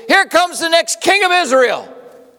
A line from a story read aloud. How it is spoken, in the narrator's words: These people yelling